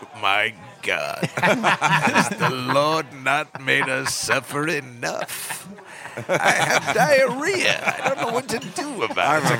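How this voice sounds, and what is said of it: Charlton Heston impression. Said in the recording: “Charlton Heston, you did an impression of him”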